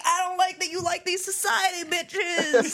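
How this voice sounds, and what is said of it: Intense put-on pizzeria accent. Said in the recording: “she's got like this intense accent, like pizzeria accent.”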